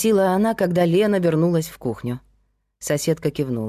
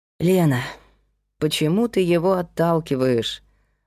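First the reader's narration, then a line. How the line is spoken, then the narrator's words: Sighing. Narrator (Russian): вздохнула Кира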